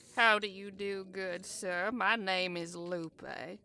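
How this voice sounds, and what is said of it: Charming Southern belle accent, like Blanche Devereaux. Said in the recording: “The charming accent. You sound like Blanche Devereaux.”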